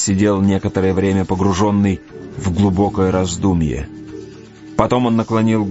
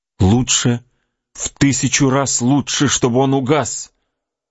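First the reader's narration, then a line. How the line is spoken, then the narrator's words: Horrified exclamation. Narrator (Russian): воскликнула с ужасом Кора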